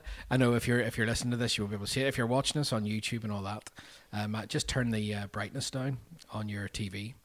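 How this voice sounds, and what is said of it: Nasal, congested voice. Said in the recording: “I've got hay fever, as you can hear ... he sounds a bit nasally”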